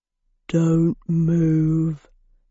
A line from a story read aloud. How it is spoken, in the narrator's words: said Stig in a low rumble